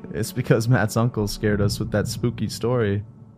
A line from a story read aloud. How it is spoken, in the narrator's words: I laughed and said